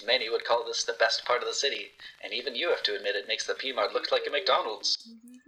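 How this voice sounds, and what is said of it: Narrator voice. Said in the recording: “The narrator voice cuts in and says,”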